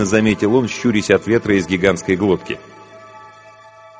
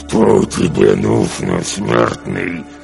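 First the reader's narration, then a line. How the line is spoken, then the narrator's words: Growl through closed lips. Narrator (Russian): прорычал он, стараясь не разжимать губ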